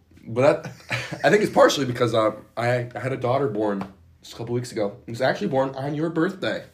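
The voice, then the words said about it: Hoarse, mostly lost voice. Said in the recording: “my voice is gone”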